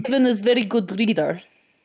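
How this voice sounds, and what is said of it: Put-on Russian accent. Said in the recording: “I like your Russian there, though.”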